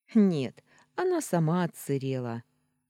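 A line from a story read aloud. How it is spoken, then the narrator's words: Laughing. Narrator (Russian): рассмеялась я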